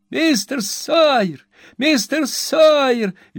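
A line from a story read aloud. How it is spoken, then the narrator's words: Shrieking from upstairs. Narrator (Russian): визжал голос с площадки третьего этажа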